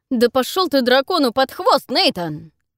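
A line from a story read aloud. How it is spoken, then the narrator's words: Yelling. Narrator (Russian): орал Эйнар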